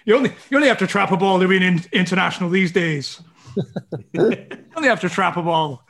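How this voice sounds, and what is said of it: Weak put-on Irish accent. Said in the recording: “Not the best Irish accent I've ever heard, I don't think.”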